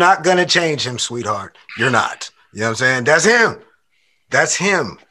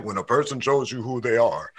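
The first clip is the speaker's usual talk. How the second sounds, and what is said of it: Deep-voiced Madea impression. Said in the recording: “that's a deep voice ... Tyler. Voice”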